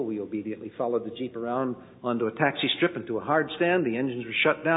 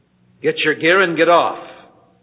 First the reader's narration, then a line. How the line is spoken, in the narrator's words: on the interphone system very sternly said